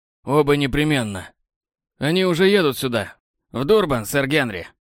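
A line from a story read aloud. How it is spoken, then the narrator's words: Dismissive snort. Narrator (Russian): Хмыкнул Лайонел Палмер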